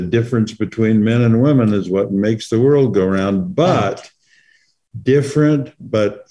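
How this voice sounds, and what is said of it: Usual voice. Nothing is said of it.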